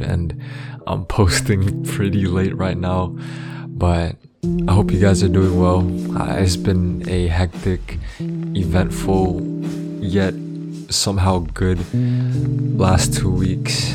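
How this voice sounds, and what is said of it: Tired late-night voice. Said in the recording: “if you can't tell by my voice, it is currently late, pretty late”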